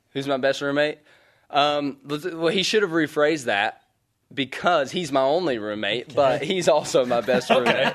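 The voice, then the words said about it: Twangy accent. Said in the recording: “people think, like, I'm really twangy ... Coach Nashif always makes fun of my accent”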